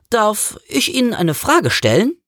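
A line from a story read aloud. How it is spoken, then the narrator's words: Hesitant question. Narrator (German): fragte zögernd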